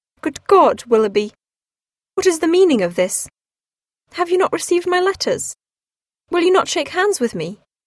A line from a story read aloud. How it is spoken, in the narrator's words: Marianne exclaimed in a voice of great emotion